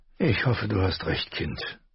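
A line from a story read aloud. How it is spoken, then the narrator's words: Doubtful sigh. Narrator (German): seufzte mit einem Unterton, der sagte, dass sie Unrecht hatte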